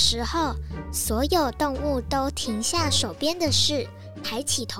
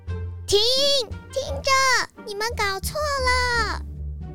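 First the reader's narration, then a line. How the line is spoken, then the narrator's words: Dejected shout. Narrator (Chinese): 小松鼠又沮丧地大叫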